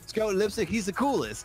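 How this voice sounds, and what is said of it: Poor put-on Australian accent. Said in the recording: “This is a terrible Australian accent.”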